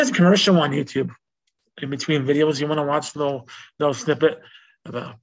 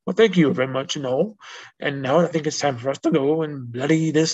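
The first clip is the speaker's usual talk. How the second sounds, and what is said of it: Attempted British accent. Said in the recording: “Let me try that again here, okay? In a British accent, again. ... and I can't do it. I'm not a good actor.”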